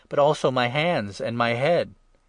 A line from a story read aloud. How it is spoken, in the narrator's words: exclaimed Simon Peter